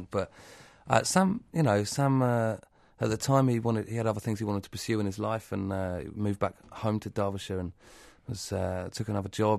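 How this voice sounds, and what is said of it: Southern English accent. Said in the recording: “I come from Southampton ... I've got a southern accent.”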